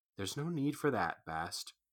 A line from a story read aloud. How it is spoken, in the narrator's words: Quoth said softly